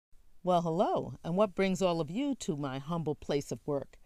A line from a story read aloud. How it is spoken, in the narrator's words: Zach asked cheerfully